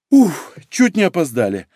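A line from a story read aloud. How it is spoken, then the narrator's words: Relieved exhale, young woman. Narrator (Russian): облегченно выдохнула девушка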